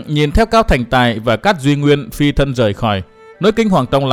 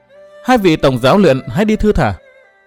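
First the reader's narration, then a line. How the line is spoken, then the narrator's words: Smiling. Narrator (Vietnamese): Mai Lãnh Tuyết mỉm cười nói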